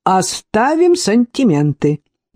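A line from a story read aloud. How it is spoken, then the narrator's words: Brisk, upbeat. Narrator (Russian): бодро повторила Шейла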